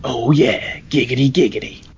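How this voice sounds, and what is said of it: Catchphrase said in serious voice. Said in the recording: “I don't think I've ever heard giggity giggity said in such a serious voice.”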